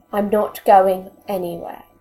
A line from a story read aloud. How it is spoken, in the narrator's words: Arthur says firmly